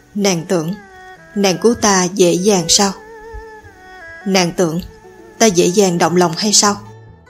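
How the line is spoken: Torn between laughing and crying. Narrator (Vietnamese): dở khóc dở cười, nói

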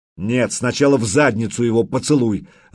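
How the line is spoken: Irritated shout. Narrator (Russian): раздраженно крикнул Духарев

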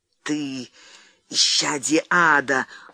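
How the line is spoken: Furious trembling hiss. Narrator (Russian): злобно прошипел он, все еще трясясь от ярости

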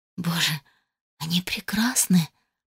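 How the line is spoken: Awed whisper. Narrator (Russian): прошептала я

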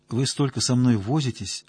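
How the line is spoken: Timid. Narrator (Russian): робко сказала Зоя

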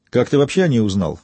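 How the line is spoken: Sharp question. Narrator (Russian): резко спросил Яго

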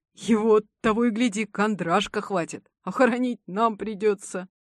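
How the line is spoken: Commenting through laughter. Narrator (Russian): Прокомментировал сквозь смех Елисей

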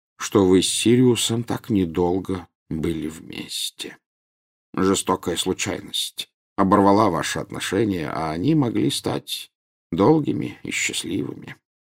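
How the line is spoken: Quiet. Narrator (Russian): тихо сказал Дамблдор

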